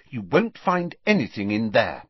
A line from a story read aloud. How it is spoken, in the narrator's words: said Hermione firmly